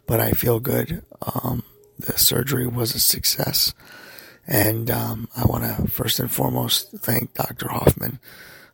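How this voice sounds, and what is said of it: Altered, strained voice. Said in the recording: “I want to apologize for my voice. ... I'm still having a little bit of a ripple effect from the tubing in my throat”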